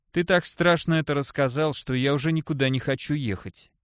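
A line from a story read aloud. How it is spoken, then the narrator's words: Gloomy dwarf. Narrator (Russian): мрачно произнес гном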